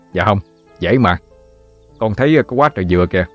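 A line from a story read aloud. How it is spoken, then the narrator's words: Cheerful, confident reply. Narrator (Vietnamese): Thành cười tươi trả lời bằng một giọng điệu chắc nịch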